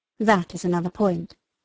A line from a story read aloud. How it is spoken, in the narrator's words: replied he